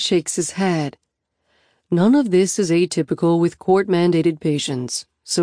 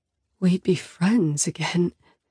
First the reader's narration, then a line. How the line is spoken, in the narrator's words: I whisper